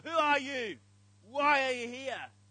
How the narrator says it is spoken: the Roman centurion, for a third time, shouts at Rabbi Akiva

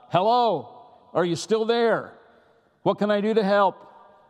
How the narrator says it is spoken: he called out

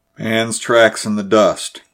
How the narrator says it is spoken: grunted Buckner

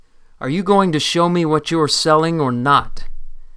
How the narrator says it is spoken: said, his voice rising with anger

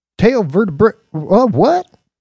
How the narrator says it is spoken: Brick Talboy stuttered with the word

